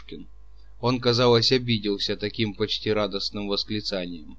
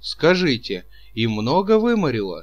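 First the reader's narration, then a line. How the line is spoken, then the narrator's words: Sympathetic exclamation. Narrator (Russian): воскликнул Чичиков с участием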